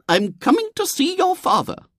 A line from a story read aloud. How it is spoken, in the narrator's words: said the lady in a determined voice